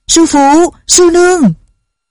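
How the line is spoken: Overjoyed loud call. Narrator (Vietnamese): Chàng vui mừng khôn xiết, lớn tiếng gọi

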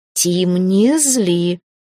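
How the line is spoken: Growled. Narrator (Russian): рыкнула я на оборотня

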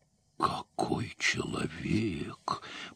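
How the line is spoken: Admiring female whisper. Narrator (Russian): прошептала маркиза, невольно покоренная

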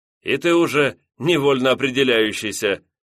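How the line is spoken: Short laugh. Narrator (Russian): хохотнул летчик

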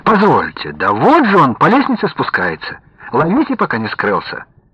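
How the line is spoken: Lively exclamation. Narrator (Russian): артист оживленно воскликнул

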